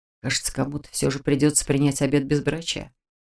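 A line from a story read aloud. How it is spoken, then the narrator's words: Resigned, doomed whisper. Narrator (Russian): обреченно прошептал кто-то из однокурсников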